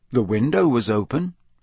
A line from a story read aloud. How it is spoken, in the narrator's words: said Harry